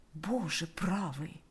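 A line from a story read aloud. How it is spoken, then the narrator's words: Quiet. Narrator (Russian): тихо произнес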